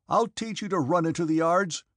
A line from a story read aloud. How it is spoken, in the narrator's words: shouted